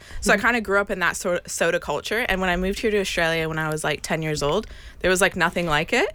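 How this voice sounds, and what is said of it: Canadian accent. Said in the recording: “As you can hear from my accent, I'm originally from Canada.”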